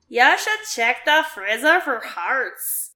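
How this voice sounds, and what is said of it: Silly character voice. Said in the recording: “I don't know why I gave him that voice.”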